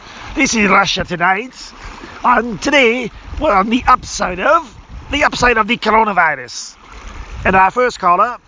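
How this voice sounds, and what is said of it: Inconsistent put-on Russian accent. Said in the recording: “I made it like this Russian. And my accents are all over the place”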